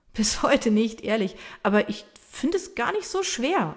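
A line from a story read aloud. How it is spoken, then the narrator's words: Laughing reply. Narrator (German): erwidert lachend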